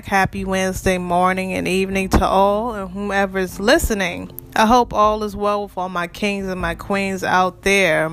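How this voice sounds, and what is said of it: Congested, stuffy voice. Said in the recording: “Excuse my voice. ... I'm sorry for the sinuses problem ... I'm trying to get over my sinuses”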